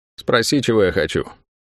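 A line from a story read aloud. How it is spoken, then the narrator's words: Dry demand. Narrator (Russian): сухо потребовала женщина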